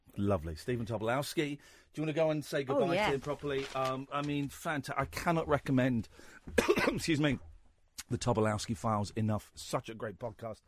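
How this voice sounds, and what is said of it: Strained, worn-out hoarse voice. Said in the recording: “My voice is going... I've been laughing too much and it's done my throat”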